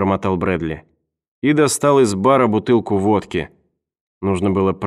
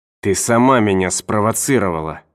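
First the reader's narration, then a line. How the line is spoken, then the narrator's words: Hissing. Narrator (Russian): прошипел он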